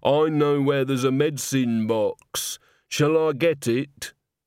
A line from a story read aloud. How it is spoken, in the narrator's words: Christine groaned